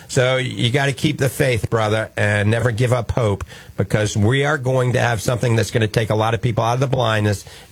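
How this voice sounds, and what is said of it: New Orleans accent. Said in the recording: “That's my New Orleans flair accent coming out.”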